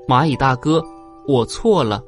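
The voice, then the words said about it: Quiet, soft-spoken line. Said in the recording (Chinese): “小声说”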